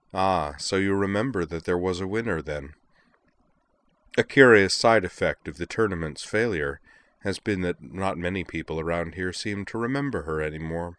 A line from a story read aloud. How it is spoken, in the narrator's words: Akio his voice was pleasant as he said